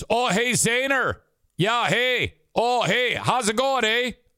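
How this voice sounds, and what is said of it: Put-on Canadian accent. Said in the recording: “he genuinely does sound like that. ... the Canadian accent is spot on.”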